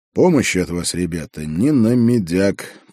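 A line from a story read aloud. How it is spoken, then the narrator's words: Grumbled. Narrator (Russian): проворчал я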